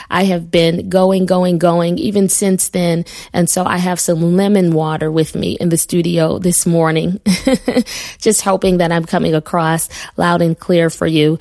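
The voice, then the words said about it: Slightly hoarse voice. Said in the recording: “I am just a little hoarse.”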